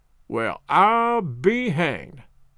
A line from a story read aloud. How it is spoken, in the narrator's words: Skiff Miller slowly and solemnly repeated